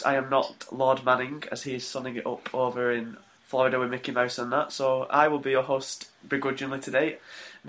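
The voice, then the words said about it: Flat, monotone, worn-out voice. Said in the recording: “my decrepit, monotone voice”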